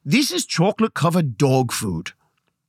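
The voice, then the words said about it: Poor put-on Australian accent. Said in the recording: “How's that for an Australian accent? I know, it sucks.”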